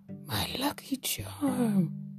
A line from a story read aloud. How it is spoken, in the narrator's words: Barnaby gasped